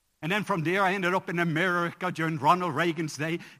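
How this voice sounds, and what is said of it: Slight Irish accent. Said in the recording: “I have a little Irish accent.”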